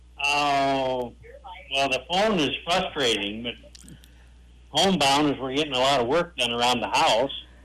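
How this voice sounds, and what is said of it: South Dakota accent. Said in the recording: “I sure heard the South Dakota there in that accent”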